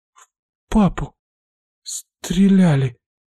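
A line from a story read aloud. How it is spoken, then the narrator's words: Forced out, near sobbing. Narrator (Russian): выдавливает она из себя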